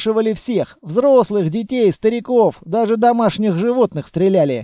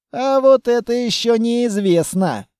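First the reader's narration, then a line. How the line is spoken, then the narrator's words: Drawled. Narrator (Russian): протянул Грязный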